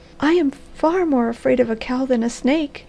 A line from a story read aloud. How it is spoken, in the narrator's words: she cried